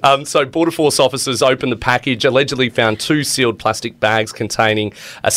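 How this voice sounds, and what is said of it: Usual voice. Nothing is said of it.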